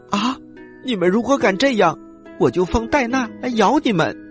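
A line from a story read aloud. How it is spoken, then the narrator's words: Loud shout. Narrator (Chinese): 爱丽丝一听，她大声的喊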